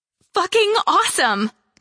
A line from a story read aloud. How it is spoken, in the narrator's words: Charm exclaimed